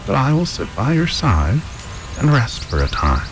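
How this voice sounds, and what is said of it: Cracked old woman's voice. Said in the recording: “returned the woman in a cracked voice”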